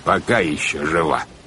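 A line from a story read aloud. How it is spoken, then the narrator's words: Ominous. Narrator (Russian): добавил капитан Шем зловещим тоном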